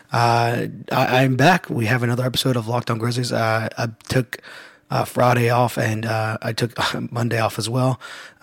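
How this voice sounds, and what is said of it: Weak, strained speaking voice. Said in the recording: “I've been pretty sick over the past, it seems like forever ... my voice is still not great, and I had completely lost it over the weekend”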